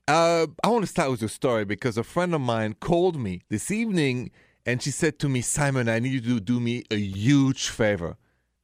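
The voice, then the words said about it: French accent. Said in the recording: “the accent is French, français”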